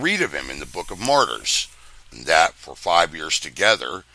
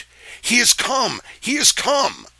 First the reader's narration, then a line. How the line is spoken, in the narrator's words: Robert Glover was so filled with heavenly joys that he cried out